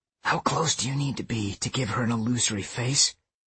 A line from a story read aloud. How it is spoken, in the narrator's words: I whispered to Megan